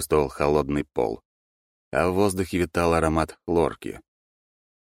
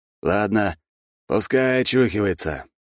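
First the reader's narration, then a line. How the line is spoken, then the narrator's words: Breathed out. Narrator (Russian): выдохнул первый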